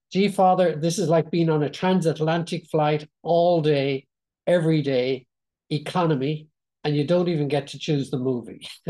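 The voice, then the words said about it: Put-on American accent. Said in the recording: “excuse my American accent”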